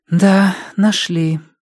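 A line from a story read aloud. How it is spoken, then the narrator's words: Sighed. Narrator (Russian): вздохнула она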